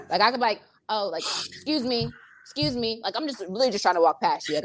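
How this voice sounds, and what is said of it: New Jersey accent, sounds tough. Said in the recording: “I have a freaking Jersey accent, so anything I say sounds rude as hell off the bat ... it just sounds tough, you know, it sounds like kind of harsh”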